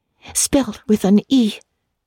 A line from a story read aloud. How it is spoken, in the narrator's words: gasped Anne, who, tremulous and excited as she was